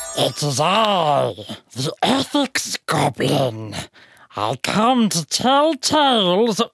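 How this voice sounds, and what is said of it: Goblin character voice. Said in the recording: “I can't do that voice. I'm not a goblin.”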